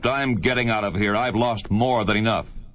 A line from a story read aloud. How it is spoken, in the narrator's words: The young man … angrily … he snapped